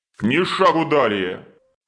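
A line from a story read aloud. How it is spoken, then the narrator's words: Monstrous barking roar. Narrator (Russian): рявкнул кошмар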